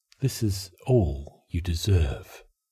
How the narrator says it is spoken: that other part of him whispered

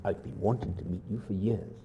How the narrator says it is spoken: murmur intensely as though they were alone

